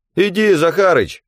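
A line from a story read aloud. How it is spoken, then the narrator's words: Shouting. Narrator (Russian): кричал Васёка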